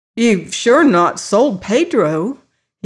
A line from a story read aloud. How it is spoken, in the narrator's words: exclaimed